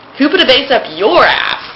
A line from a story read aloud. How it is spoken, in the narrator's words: Colin exclaimed